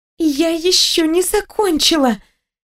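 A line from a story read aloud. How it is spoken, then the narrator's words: High-pitched squeak. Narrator (Russian): пропищала я, беря самые высокие ноты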